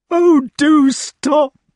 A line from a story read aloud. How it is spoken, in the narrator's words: he cried